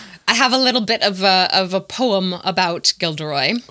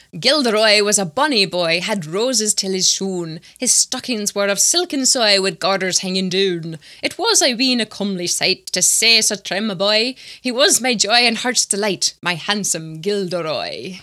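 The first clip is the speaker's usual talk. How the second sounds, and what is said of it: Put-on Scottish accent. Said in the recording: “forgive me while I put on a Scottish accent for this.”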